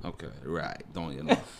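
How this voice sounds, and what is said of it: Put-on Caribbean accent. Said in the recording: “sometimes I do a little Caribbean thing”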